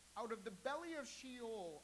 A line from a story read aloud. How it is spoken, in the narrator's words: I cried